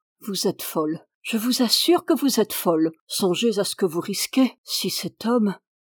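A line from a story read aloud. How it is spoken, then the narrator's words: Murmured. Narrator (French): Il murmura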